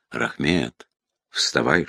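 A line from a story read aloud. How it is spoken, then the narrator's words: Whispered. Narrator (Russian): шепнул Грин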